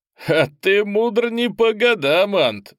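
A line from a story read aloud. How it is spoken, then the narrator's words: Laughing. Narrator (Russian): рассмеялся Олмейс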